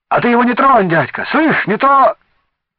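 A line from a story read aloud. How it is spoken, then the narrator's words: Fierce shout. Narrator (Russian): сверкая глазами, крикнул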